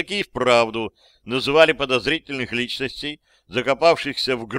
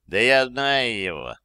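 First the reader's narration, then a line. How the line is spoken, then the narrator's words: Lazy drawl. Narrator (Russian): лениво сказал другой казак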